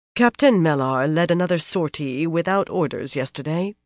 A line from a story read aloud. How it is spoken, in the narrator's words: Birgitta said in a carefully even voice